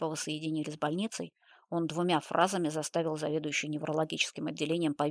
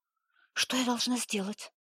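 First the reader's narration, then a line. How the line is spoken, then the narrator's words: Frightened question. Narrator (Russian): испуганно спросила она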